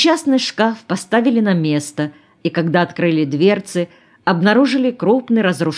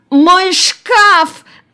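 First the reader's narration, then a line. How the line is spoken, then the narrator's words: Shriek. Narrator (Russian): завопила Надежда Спиридоновна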